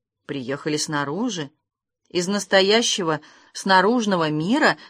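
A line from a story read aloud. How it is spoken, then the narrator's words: Timid question. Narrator (Russian): спросил Ном, робко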